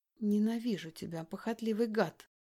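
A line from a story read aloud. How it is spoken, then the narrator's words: Through gritted teeth. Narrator (Russian): говорю я сквозь зубы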